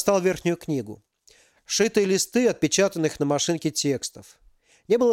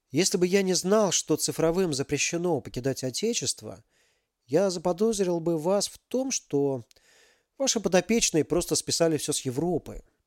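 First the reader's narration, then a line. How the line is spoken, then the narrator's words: Surprised whisper. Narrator (Russian): прошептал удивленный великий князь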